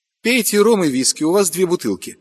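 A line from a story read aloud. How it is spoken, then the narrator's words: Snapping. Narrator (Russian): огрызнулась Маша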